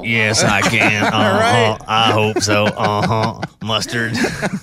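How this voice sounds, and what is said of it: Billy Bob Thornton Sling Blade impression. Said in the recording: “that's Sling Blade ... That was an excellent impression of Billy Bob Thornton”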